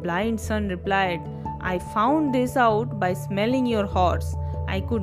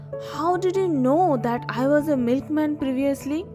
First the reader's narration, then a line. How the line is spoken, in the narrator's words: The horse trader gasps and asks